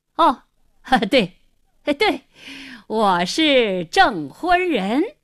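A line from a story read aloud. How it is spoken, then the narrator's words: Forced hearty laughter, repeated. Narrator (Chinese): 胡经理……故意哈哈大笑，连声说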